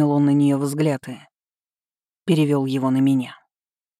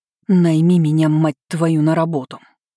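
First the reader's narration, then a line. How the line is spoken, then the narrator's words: Hoarse through gritted teeth. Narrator (Russian): Процедила я хрипло наконец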